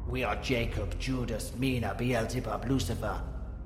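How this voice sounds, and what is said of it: Deep gravelly demonic voice. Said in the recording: “in a deeply gravelly voice,”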